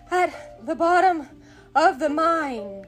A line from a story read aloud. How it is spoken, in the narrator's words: gasped Hook